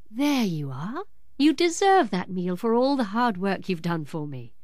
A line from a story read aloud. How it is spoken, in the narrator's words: said the lady